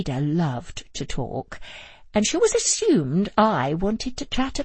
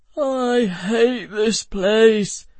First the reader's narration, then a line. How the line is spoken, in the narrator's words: Joe wailed, his head buried in his hands